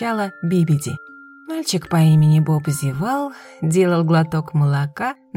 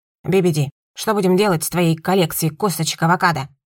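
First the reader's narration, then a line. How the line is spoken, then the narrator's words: Harsh bark. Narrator (Russian): Рявкнула Би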